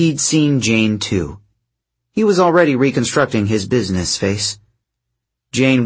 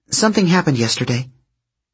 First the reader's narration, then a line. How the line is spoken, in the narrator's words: Piper said quickly